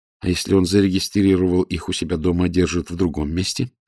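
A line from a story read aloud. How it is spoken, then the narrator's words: Plain. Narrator (Russian): спросила Ирина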